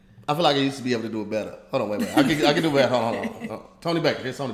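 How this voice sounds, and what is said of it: Usual voice. Nothing is said of it.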